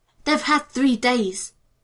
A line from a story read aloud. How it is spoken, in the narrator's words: she snapped